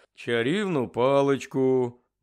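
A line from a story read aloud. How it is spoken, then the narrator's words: Security worker grumbling. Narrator (Ukrainian): буркнув працівник Служби безпеки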